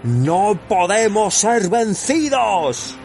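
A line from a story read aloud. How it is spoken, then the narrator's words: Shouting. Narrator (Spanish): gritó Saruman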